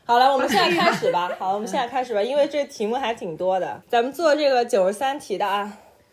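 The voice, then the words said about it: Beijing-accented Mandarin. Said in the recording (Chinese): “我这北京口音真的是既不标准又甩不掉”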